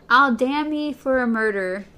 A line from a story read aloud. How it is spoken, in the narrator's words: sighed Thorn